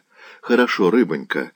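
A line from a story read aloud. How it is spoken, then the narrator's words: Affectionate. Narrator (Russian): ласково молвил пан Лангинус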